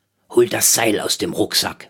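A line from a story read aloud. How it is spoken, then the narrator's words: Murmured. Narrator (German): murmelte Rolf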